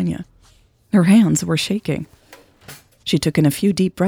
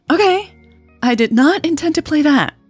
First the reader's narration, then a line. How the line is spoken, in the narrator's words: she squeaked